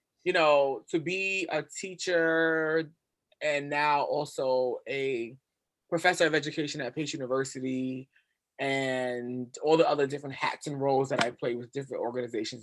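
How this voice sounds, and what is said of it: Brooklyn New York accent. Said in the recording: “born and raised in Brooklyn, New York... I hear it all in your accent”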